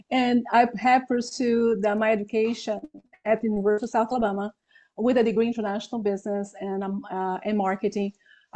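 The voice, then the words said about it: Brazilian accent in English. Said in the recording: “I'm originally from Brazil, so that's why I have my accent.”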